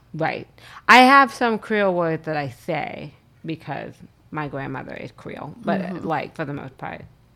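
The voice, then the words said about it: Southern US accent. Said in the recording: “we both very much sound like we're from the South ... I have a slightly different Southern accent”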